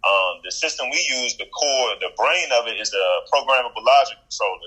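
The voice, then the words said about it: Noticeable accent. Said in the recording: “excuse my accent, because you might not be able to say hear what I'm about to say”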